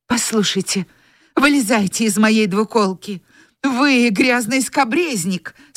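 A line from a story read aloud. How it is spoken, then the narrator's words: Trembling voice. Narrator (Russian): сказала она дрожащим голосом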